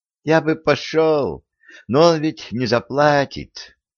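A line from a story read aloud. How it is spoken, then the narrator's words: Dejected sigh. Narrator (Russian): удрученно вздохнул Абрам Соломонович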